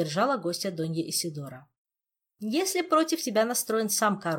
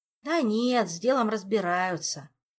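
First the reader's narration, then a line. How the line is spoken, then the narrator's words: Sighing. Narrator (Russian): вздохнул Артуру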